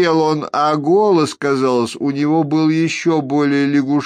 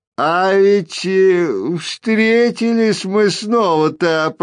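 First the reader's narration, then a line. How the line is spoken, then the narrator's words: Creaky croak. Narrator (Russian): проскрипел лягушачий соловей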